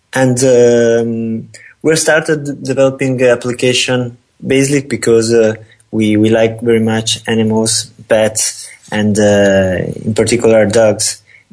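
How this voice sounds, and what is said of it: Italian-accented English. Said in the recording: “this Antonio voice seems to have a bit of an Italian accent ... probably a bit more than just a bit of accent”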